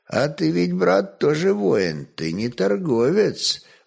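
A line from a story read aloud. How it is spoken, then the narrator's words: Quiet, sly, tipsy voice. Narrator (Russian): тихо проговорил грек, лукаво сузив крепко захмелевшие очи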